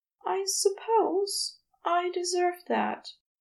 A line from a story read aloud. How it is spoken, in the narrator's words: he murmured